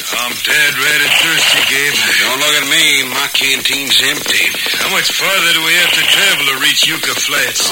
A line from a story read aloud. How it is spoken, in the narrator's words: tired, dusty, and hungry, Lefty Chance grumbled